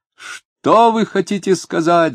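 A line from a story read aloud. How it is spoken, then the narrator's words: Shouting. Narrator (Russian): закричал Говорков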